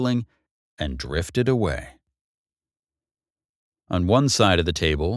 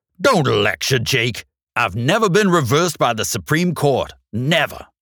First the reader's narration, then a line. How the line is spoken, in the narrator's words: Angrily, Judge Attlee barked